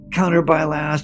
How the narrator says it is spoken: barks

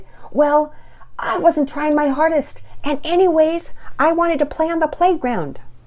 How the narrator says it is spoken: she shouted

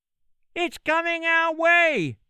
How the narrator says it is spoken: shouted the beech tree

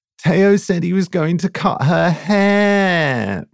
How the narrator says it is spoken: Romy whined, glancing anxiously

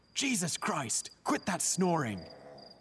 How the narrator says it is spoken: Frustrated, one of the patients finally shouted

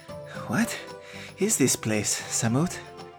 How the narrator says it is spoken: Jeru wheezed a bit

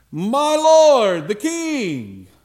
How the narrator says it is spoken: David runs out of the cave and he yells

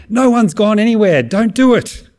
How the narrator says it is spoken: Paul yells out

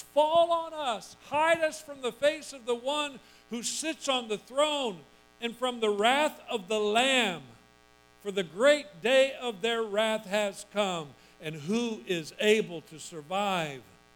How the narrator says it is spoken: they cried to the mountains and the rocks

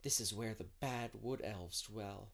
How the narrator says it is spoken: whispered Anne

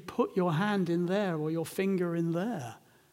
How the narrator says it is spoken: a man with gaping wounds in his side and in his hands who just calmly said

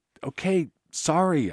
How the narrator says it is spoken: yelled back

